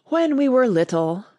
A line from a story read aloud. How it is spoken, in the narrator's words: the Mock Turtle went on at last, more calmly, though still sobbing a little now and then